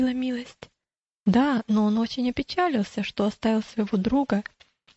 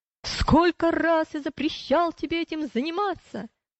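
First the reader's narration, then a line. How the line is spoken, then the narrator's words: Shouting. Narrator (Russian): Вредитель закричал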